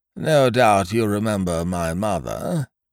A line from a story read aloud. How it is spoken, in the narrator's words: said Professor Pringle mournfully